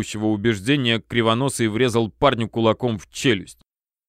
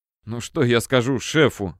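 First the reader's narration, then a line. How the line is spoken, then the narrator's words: Mutter. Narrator (Russian): бормотал Толя, пошатываясь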